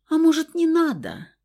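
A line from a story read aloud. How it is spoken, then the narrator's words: Pleading squeaky voice. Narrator (Russian): умоляющим голосочком пропищал рыжий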